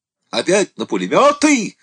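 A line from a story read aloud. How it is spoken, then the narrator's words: Yelled. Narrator (Russian): заорал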